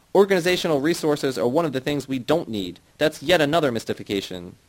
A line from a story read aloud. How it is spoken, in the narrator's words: Zednik snapped